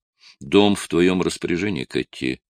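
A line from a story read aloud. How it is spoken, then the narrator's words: Plain. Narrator (Russian): сказал он дочери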